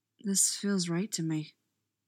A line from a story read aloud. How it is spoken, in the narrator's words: he says softly